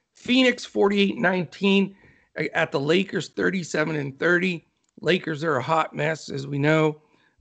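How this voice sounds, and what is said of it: Hoarse, failing voice. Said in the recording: “All of a sudden, my voice is going.”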